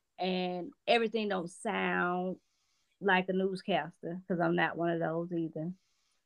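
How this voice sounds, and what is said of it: Southern American accent. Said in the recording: “I'm Southern Belle to the end with this accent.”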